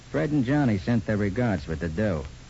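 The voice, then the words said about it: Tough gangster voice. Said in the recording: “in my best gangster voice”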